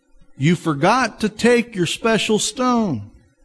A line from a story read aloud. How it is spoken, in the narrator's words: a small child called out